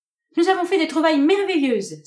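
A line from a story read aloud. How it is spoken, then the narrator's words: Excited exclamation, clapping. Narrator (French): s'écria-t-elle en battant des mains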